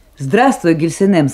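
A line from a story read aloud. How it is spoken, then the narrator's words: Cheerful. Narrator (Russian): сказал он весело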